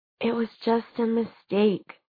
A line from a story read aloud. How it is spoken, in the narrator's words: she said wearily